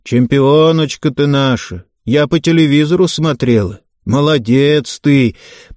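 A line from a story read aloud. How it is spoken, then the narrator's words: Loud proclaiming neighbour. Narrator (Russian): продолжала громко вещать соседка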